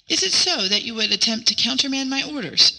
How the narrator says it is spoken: exclaimed Hua, in apparent anger

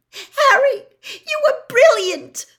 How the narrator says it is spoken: Hermione said squeakily

